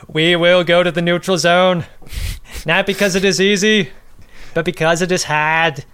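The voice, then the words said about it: Imitates another person's voice, badly. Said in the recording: “my JFK is brutal... our other terrible impressions... my impression”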